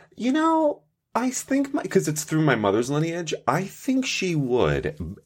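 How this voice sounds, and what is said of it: Italian-sounding accent. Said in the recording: “you come off pretty goddamn Italian to me right now ... It's my accent, I think. It's got to be the accent.”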